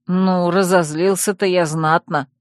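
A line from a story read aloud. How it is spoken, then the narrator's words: Snort. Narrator (Russian): хмыкнул Тир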